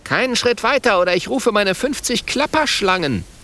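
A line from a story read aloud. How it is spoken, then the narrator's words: Quick call, little dragon. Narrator (German): Schnell ruft der kleine Feuerdrache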